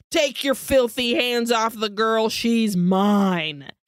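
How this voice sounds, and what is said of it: Menacing demon voice. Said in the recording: “voice changes. It's a demon voice now.”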